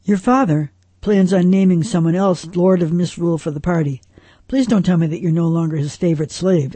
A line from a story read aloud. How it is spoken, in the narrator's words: asked Ovid